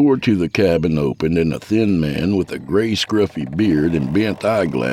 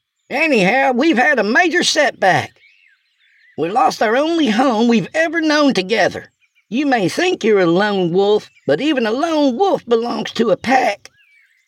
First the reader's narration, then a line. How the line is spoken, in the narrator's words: shouted